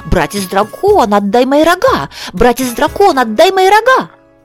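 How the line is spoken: Rooster crowing at full voice. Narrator (Russian): тот петух как закричит во все петушиное горло

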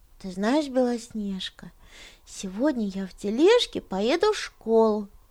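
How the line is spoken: Mumbling. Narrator (Russian): бормотал он

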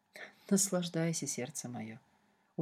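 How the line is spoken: Very quiet reply. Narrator (Russian): очень тихо ответил Шартрес

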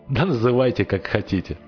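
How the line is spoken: Amused, after laughing. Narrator (Russian): сказала оно, отсмеявшись

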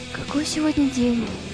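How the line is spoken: Quiet question. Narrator (Russian): тихо проговорила Вероника

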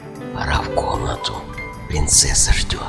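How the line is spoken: Servant whispering in ear. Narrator (Russian): прислуга шепнула на ухо

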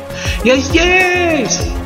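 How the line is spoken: Furious shout. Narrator (Russian): с яростью крикнул в пустоту

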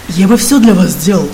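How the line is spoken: Sleepy, drunk, painfully candid. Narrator (Russian): сонно ответил Криденс, пьяный и оттого болезненно откровенный

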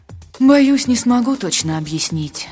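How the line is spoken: Sighing voice. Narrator (Russian): вздохнул голос

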